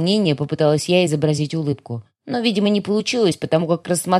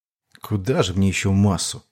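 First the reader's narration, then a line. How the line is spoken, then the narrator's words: Muttering. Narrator (Russian): пробормотал Медо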